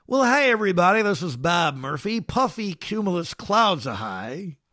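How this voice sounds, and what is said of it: Imitates another person's voice, poorly. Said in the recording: “Here's my best imitation ... Okay, it's terrible ... That was not your best”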